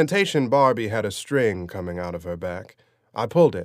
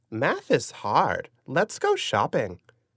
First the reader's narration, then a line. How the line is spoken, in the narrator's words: she said in a squeaky, sing-song voice